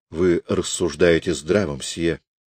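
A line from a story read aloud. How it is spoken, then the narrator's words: Soft heartfelt voice. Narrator (Russian): сказала она проникновенным тихим голосом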